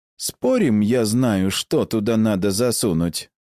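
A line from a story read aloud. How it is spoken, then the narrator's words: Cheerful, smiling. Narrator (Russian): Весело улыбнулся Истир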